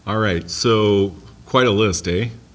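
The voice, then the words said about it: Playful put-on Canadian dialect. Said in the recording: “I'm practicing my Canadian dialect there, eh?”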